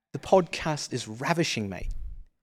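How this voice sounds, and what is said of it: Put-on British accent. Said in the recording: “Can you do a British accent?”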